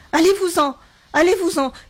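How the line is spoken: Shouting, increasingly agitated. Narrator (French): cria-t-elle de plus en plus excitée

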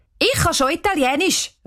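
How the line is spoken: Calling out. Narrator (German): ruft Cheyenne

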